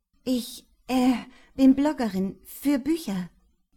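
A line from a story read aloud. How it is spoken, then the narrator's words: Stammering. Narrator (German): stammelte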